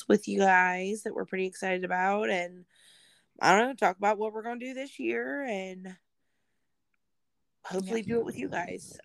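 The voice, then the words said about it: Hoarse voice. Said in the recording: “that's why my voice is kind of hoarse today”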